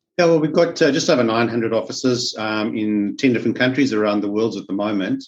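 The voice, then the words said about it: South African accent. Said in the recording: “As you can pick up from my accent, I'm from South Africa.”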